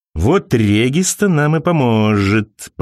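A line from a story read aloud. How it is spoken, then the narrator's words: Drawn out, sinister. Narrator (Russian): протянул он зловеще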